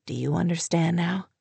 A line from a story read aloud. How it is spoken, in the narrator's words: he asked, his voice a husky murmur